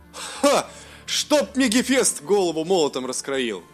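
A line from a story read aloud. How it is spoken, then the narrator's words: Joyful laughter. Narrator (Russian): радостно засмеялся Элиндил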